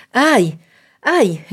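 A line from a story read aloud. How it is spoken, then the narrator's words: Mother's despairing exclamation. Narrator (Spanish): exclamó la madre como en un desastre irremediable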